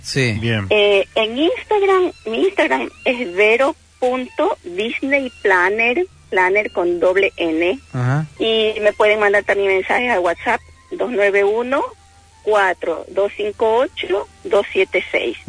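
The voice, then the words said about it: Non-Argentine Spanish accent. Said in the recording (Spanish): “tu acento indica que no sos argentina ... Yo soy de Ecuador.”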